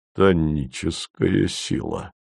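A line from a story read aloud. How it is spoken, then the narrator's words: Heavy sighing remark. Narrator (Russian): проронил Вий и тяжко вздохнул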